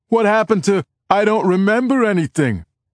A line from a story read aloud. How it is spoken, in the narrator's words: someone shouts